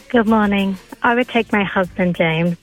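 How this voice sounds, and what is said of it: Put-on sultry sexy voice. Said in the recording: “This is my sexy voice, by the way... It's very sexy.”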